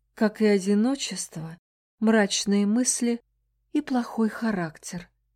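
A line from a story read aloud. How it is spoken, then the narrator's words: Sighing. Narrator (Russian): она вздохнула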